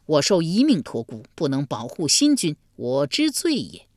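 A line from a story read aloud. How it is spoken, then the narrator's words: Grief-stricken wailing. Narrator (Chinese): 大痛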